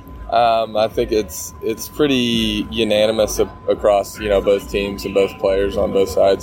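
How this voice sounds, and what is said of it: Jamaican accent. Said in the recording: “originally from Jamaica ... you hear his accent, man. The guy's serious about it.”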